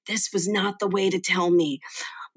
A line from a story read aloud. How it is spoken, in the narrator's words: his mother whispered to him